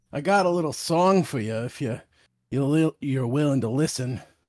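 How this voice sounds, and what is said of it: Raspy old man voice. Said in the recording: “What the hell accent am I hearing? ... Raspy old man”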